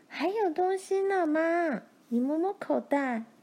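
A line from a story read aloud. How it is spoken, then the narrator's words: Calling out. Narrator (Chinese): 玲玲叫着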